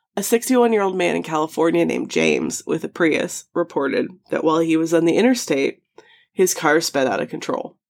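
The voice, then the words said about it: Strained, failing voice. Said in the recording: “my voice is on its way out right now”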